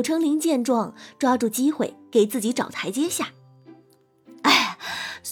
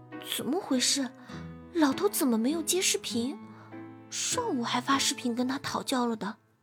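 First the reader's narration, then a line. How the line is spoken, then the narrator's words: Quiet worried muttering. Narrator (Chinese): 玉星锤皱着眉，小声嘟囔道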